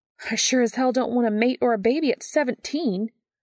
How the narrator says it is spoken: she snaps back, though it's fear, not anger, behind her sharp words

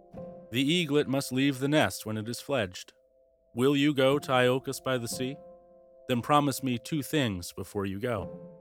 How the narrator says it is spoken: Chiron sighed again and said

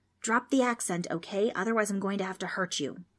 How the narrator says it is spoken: Trix whispered

